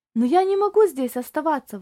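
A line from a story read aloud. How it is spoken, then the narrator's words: Exclaimed. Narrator (Russian): воскликнул Тони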